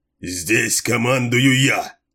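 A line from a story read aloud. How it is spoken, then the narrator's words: Barked. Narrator (Russian): рявкнул Масал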